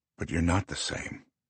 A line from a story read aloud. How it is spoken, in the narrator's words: he murmurs